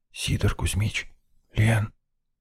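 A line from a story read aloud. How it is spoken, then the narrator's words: Whispered call. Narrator (Russian): Почему-то шепотом позвал я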